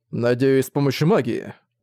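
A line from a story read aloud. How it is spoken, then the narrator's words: Warning tone. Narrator (Russian): предостерегающим тоном заметил Зориан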